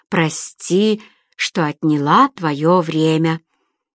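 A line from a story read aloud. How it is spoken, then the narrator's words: Purring. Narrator (Russian): промурлыкала Фиона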